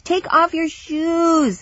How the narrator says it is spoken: he pleaded

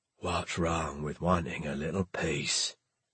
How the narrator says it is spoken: Snell sighed

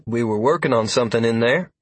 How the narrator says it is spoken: Freya replied wearily

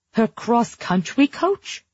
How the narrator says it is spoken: Mom wailed

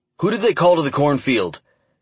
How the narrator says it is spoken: Dan snapped, anger crossing his words for the first time

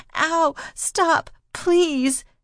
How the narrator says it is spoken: she cried

